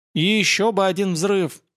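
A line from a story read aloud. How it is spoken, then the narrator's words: Groan. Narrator (Russian): простонал Семен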